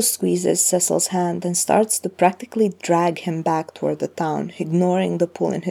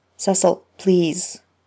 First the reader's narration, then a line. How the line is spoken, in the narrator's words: he snaps